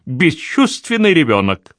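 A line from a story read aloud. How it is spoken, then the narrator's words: Flushed, shaking, unusually angry exclamation. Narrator (Russian): Миссис Девилоу залилась краской, конвульсивно вздрогнула и с несвойственной ей злобой воскликнула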